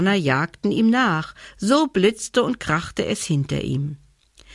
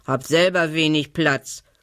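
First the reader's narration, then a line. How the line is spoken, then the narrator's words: Pig grunting. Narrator (German): grunzte das Schwein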